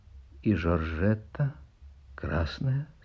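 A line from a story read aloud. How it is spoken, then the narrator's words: Quiet question. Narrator (Russian): спрашивает Каминский тихо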